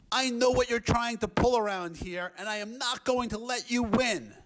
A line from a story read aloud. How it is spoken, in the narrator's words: he shouted at the flea